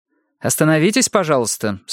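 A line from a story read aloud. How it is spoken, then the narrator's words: Sharper tone. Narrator (Russian): сказала Марго уже более резко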